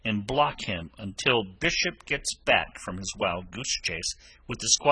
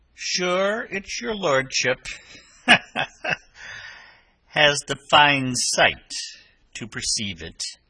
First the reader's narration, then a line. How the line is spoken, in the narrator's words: laughed the captain